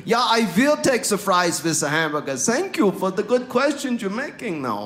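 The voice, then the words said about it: Put-on German accent. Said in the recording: “This is a German accent. ... This is my German accent.”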